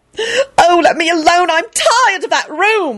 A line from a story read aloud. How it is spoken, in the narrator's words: Elizabeth wailed and burst into tears